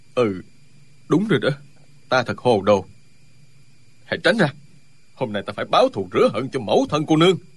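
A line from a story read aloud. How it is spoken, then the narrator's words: Stunned mutter. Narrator (Vietnamese): Ân Lê Đình sững sờ, lẩm bẩm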